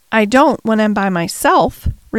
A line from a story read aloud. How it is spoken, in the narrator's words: replied the Rajah